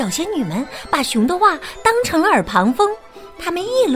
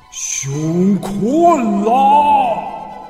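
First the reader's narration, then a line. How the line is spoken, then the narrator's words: Angry roar. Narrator (Chinese): 熊怒吼道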